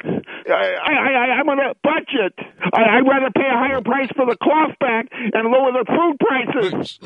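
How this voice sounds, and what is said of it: Excited, frantic, rushed speech. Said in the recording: “He sounds a little excited ... He's getting all frantic on us ... Slow down.”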